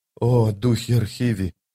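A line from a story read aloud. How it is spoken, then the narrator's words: Whisper. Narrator (Russian): прошептала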